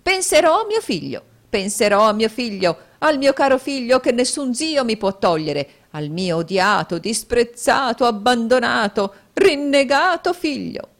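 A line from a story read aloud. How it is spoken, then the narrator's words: Shrieked. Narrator (Italian): strillò la signora Kenwigs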